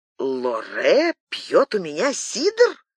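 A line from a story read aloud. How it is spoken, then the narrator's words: Laughing exclamation. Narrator (Russian): Со смехом воскликнул Фуке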